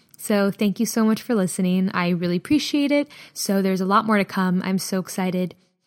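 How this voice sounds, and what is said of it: Hoarse, strained voice. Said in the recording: “my voice is just like so shot right now”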